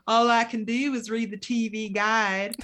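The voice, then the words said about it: Imitates another person's voice. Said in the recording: “she used to do this voice.”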